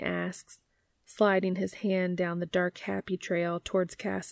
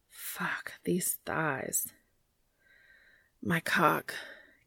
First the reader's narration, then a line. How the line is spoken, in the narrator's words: Cass pants